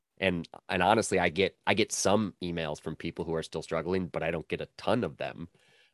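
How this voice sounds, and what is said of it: Nasal, congested voice from cold. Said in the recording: “I have a cold and I'm very nasally.”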